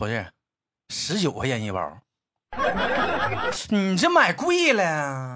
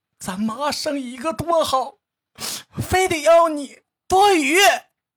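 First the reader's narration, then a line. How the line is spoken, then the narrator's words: Crying shout. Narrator (Chinese): 哭着冲他喊道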